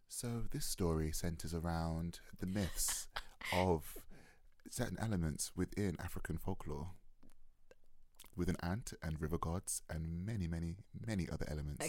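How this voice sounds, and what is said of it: Mock British BBC announcer voice. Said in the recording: “doing my best BBC voice”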